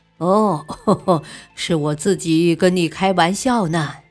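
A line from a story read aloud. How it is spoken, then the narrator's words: Smiling. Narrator (Chinese): 桑晓笑笑说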